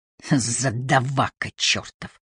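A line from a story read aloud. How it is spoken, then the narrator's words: Hissed. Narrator (Russian): прошипел Воллер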